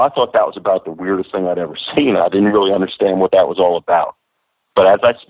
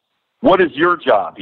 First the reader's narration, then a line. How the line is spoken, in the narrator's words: he yells to the boys